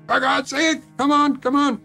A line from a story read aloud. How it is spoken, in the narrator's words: I was screaming into the phone